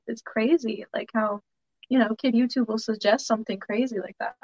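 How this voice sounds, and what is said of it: Southern US country accent. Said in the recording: “Do I hear a little accent in your voice? ... when I get more animated, I sound more country. I'm Southern for sure.”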